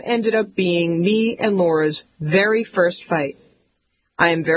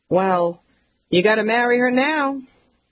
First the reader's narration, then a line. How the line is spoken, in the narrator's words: My mom sighs